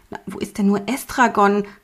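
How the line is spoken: Excited call. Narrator (German): rief er aufgeregt

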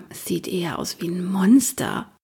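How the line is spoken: Soft murmur. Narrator (German): hörte ich sie noch leise murmeln

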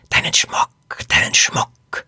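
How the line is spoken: Hissing voice. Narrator (German): eine Stimme zischen

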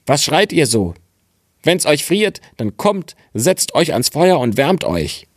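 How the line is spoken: Calling out. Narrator (German): rief er

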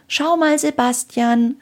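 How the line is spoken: Calling upward. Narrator (German): rief Anna zu Sebastian hinauf

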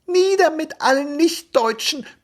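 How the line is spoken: Squeaky youngest child. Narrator (German): piepste der Jüngste

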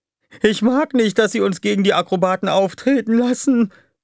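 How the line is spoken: Whining. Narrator (German): jammerte Dupi

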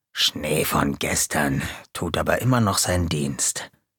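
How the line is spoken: Muttered. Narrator (German): Hinter der Bühne murmelte Gonko

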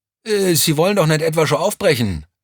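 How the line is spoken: Excited call. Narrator (German): rief Vierlinger aufgeregt

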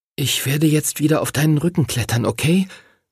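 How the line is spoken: Whispering. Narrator (German): flüsterte er dem Drachen zu

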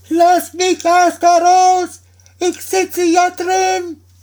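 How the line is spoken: Frightened high-pitched cry. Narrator (German): war dem Daumerling Angst, dass er mit heller Stimme rief

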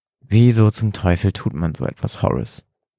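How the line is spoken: Trembling voice. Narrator (German): fragte William mit zitternder Stimme

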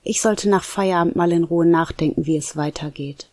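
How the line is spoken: Plain. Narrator (German): sagte Nico

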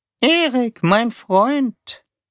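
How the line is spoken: Squeaky monotone voice. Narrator (German): sagte Taube mit seiner piepsigen, eintönigen Stimme

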